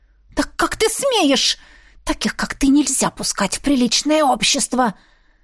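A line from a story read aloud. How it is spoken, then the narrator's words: Annoyed hiss. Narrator (Russian): раздосадованно шипела она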